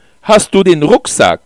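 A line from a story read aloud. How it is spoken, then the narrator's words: Loud question. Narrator (German): fragte ich laut, damit sie mich hören konnte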